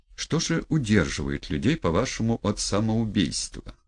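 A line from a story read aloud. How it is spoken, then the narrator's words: Plain question. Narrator (Russian): спросил я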